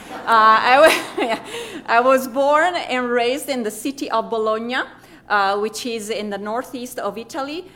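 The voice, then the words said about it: Italian accent. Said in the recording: “As you can hear from my accent, I am Italian, a real Italian”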